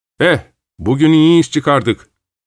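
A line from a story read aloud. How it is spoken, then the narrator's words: Shouted. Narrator (Turkish): diye bağırdım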